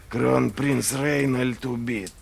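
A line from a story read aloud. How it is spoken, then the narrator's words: Mutter. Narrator (Russian): пробормотал Глокта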